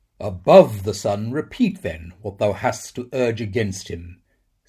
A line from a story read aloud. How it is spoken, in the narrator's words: said the archangel